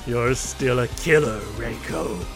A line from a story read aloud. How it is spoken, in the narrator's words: grunts and says